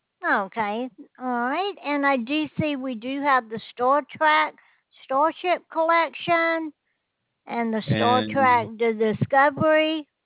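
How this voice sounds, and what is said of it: Southern US accent. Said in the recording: “you sound like a Tennessee to Alabama accent.”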